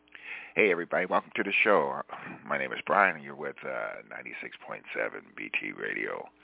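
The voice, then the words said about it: Radio announcer voice. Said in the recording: “I'm going to get into my radio voice”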